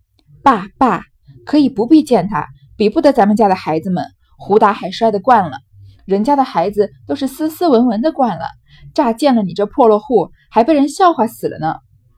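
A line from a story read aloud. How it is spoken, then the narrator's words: Laughing. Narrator (Chinese): 尤氏笑道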